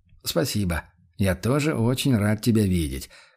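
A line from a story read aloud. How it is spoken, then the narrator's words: Snorting. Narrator (Russian): хмыкнул Курт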